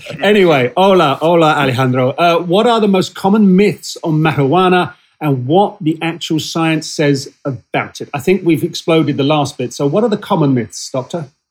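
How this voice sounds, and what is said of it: British accent. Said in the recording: “my sad British accent”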